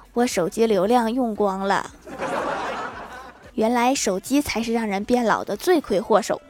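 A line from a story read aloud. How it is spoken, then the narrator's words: Light, smiling tone. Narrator (Chinese): 欢喜淡淡一笑说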